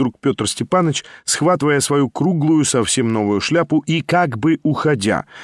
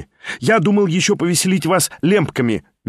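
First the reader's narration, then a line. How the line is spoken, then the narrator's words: Cheerful exclamation. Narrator (Russian): весело вскричал он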